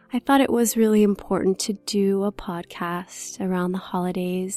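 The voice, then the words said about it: Slightly hoarse, low-energy voice. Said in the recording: “I'm recovering from the flu, so I apologize if my voice is a little hoarse or I seem like I have a little low energy today”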